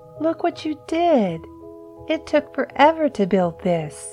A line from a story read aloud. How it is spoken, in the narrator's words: Eugene whined